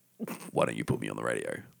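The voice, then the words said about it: Exaggeratedly deep radio voice. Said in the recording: “Whoa, it's getting deeper. ... Deeper. ... And now he is subsonic.”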